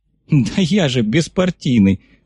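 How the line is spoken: Loud laughter. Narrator (Russian): расхохотался комиссар

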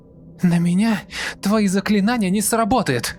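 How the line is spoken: Shrieking girl. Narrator (Russian): Завизжала девушка

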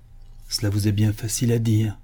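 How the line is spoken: Mournful murmur. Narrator (French): murmura le chanoine d'une voix lamentable

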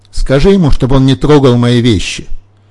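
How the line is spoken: Shouting. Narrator (Russian): Крикнет маме

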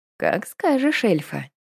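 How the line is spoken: Purring. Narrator (Russian): промурлыкал Владимир

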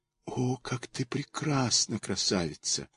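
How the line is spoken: Whisper. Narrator (Russian): прошептал он

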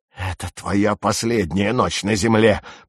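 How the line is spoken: Growled. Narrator (Russian): прорычал он

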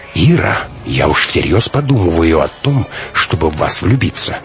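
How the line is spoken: Plain. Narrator (Russian): сказал наконец он

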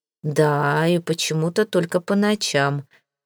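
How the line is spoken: Gloomy, lowered voice. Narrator (Russian): мрачно кивнул он и понизил голос

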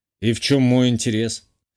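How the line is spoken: Snort. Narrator (Russian): хмыкнул

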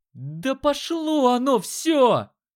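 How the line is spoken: Yelling. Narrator (Russian): Заорал он

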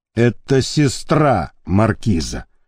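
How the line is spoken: Gloating mutter. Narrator (Russian): злорадно буркнул Леонид Борисович

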